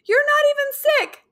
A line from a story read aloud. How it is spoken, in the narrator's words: Me, confused, but still shouting